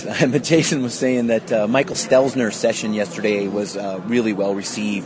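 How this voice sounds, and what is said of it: Strained, failing voice. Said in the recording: “you can tell I'm losing my voice”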